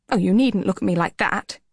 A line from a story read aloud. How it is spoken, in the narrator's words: snapped